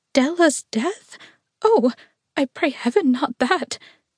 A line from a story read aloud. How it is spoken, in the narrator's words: Dimple cried piteously